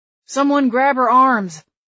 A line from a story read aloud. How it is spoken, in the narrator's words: Claude grunted under Celia's weight